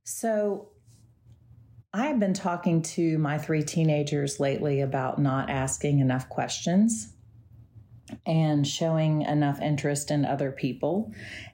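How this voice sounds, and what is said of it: Slightly off, recovering voice. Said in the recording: “my voice sounds a little off. I was sick last week and my voice hasn't fully recovered ... hopefully I won't be clearing my throat a lot”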